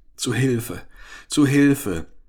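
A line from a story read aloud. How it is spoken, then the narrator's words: Whimpering in German. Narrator (German): wimmerte er, sich der deutschen Sprache bedienend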